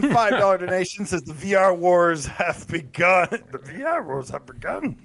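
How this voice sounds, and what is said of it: Put-on character voice. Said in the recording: “did the other voice.”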